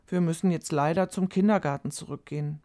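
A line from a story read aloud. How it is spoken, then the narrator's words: Saying sadly. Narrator (German): sagte Frau Fröhlich traurig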